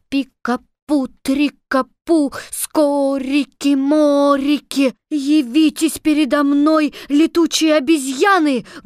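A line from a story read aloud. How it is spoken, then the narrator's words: Loud shout. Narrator (Russian): громко закричала Элли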